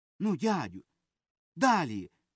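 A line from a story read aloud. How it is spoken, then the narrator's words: Cried out. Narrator (Ukrainian): скрикнула Любка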